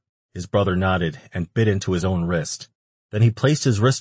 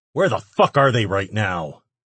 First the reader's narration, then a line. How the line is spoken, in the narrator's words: He growled